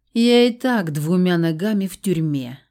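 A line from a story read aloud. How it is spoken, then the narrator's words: Sad pronouncement. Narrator (Russian): грустно изрек Жора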